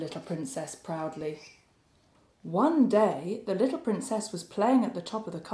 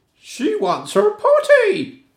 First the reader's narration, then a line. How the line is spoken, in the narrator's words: cried the maid